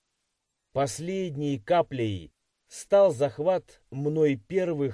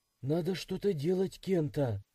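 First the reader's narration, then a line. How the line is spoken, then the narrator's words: Sighing. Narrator (Russian): вздохнула Масаки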